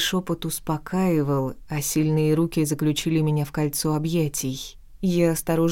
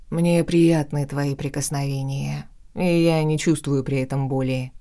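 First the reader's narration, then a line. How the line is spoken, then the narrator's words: Conciliatory tone. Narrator (Russian): примирительным тоном пояснил Лорн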